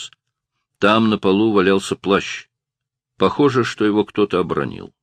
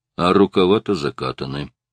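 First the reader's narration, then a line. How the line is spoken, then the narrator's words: Muttering. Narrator (Russian): пробормотал Стоун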